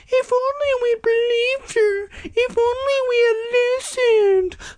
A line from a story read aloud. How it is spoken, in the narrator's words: crying their little stupid eyes out, wailing